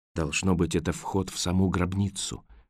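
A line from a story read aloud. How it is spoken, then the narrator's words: Whisper. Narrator (Russian): прошептал Роэн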